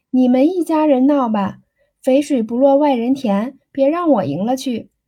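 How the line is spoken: Laughing. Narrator (Chinese): 秀珠笑道

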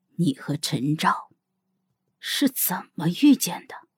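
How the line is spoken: Low slow question. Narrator (Chinese): 萧玉林低声的、缓缓的问

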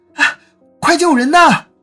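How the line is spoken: Shouting. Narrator (Chinese): 李青年大叫一声

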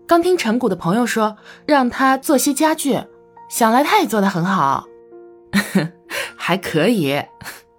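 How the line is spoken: Laughing. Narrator (Chinese): 他笑道

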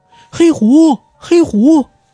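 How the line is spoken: Calling out upstairs. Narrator (Chinese): 朝楼上喊了两嗓子

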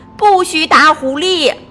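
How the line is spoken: Shouting. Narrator (Chinese): 菲菲在喊

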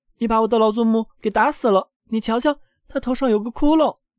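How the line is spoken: Outraged shout. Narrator (Chinese): 小克劳斯叫了起来

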